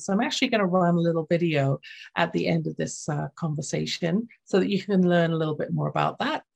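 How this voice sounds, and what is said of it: Lilting English accent. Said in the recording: “my lilting English accent”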